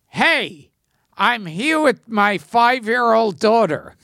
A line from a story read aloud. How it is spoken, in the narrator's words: somebody yelled out